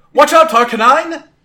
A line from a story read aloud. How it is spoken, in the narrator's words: Gwen called out